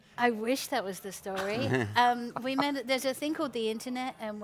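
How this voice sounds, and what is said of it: Louisiana Cajun-area accent. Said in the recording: “from your accent, I know you're from the Ville Platte area.”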